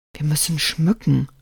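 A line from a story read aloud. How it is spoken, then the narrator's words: Whisper. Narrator (German): flüstert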